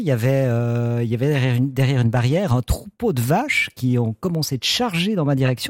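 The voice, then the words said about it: Very sing-song regional accent. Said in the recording (French): “un accent extrêmement chantant”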